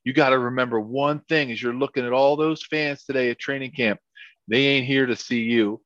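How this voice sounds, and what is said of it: Put-on North Carolina accent. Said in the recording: “he had this great like North Carolina accent ... I'll try to do my best, you know, North Carolina accent.”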